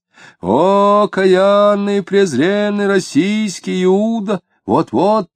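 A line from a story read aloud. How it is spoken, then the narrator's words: Loud chanting, deacon-like. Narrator (Russian): громко и нараспев, подражая дьякону, начал читать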